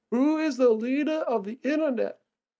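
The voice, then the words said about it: Put-on accent in a silly voice. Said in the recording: “What was that accent? ... it's just a voice.”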